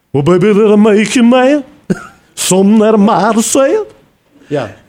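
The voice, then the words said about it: Sung imitation of another person's voice. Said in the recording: “do a pretty mean Elvis impersonation ... That was pretty good, huh? ... Yes. That was good.”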